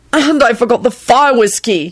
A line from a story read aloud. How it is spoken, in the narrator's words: he blurted out in a disgusted voice